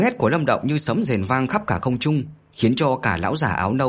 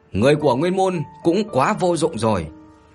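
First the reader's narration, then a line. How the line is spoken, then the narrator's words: Cold laugh, shouting. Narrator (Vietnamese): Lâm Động cười lạnh, hét lên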